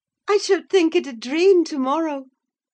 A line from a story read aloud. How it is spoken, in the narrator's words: she cried